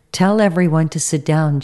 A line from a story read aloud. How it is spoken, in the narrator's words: Jesus said